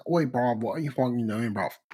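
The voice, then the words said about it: Put-on Australian accent. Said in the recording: “Oh no, that's Australian.”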